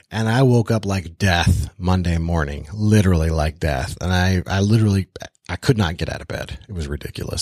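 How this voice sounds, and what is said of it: Sick, ill-sounding voice. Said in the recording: “You could probably tell from my voice. I got the plague, man.”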